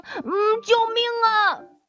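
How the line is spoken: Loud cry. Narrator (Chinese): 小猪大喊了一声

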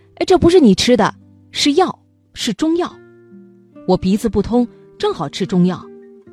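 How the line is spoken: Hurried shout. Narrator (Chinese): 口里叫道

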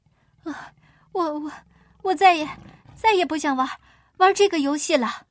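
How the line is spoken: Breathless, panting. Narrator (Chinese): 彼得喘息着说

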